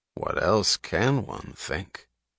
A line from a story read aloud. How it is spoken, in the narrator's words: She chuckled softly